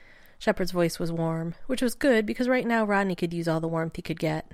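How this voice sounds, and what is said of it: Usual voice. Nothing is said of it.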